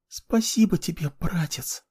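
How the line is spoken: Smiling whisper. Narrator (Russian): улыбнувшись, прошептала

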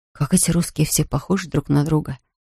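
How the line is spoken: Quietly said. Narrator (Russian): один другому тихо говорит

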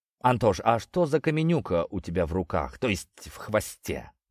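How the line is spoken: Plain. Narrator (Russian): наконец спросил я

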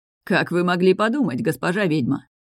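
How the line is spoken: Laughing. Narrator (Russian): Смеясь, произнес Мир

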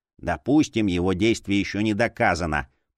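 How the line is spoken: Grumbling. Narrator (Russian): проворчал Гулди

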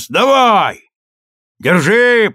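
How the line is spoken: Shouting downward. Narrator (Russian): И я крикнул вниз

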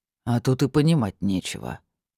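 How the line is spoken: Displeased grumble. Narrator (Russian): недовольно буркнул Богомол

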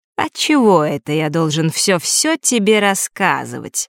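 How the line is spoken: Insinuating. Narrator (Russian): вкрадчиво проговорил Марк

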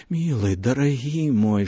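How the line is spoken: Whisper. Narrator (Belarusian): шаптала яна

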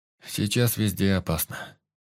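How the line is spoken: Sleepy voice. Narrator (Russian): сонным голосом проговорил Юсуф

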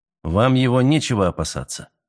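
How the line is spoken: Calm. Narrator (Russian): спокойно произнес Мэлори

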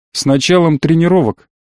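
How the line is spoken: Snorting reply. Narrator (Russian): хмыкнул в ответ

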